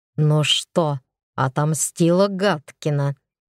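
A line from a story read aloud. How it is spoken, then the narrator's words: Venomous hiss. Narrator (Russian): прошипел Кощеев так злобно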